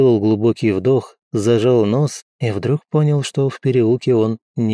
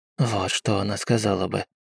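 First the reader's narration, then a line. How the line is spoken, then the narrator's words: Whispering. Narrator (Russian): прошептал Обби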